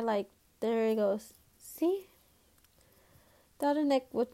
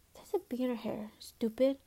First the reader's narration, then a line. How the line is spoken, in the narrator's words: whispered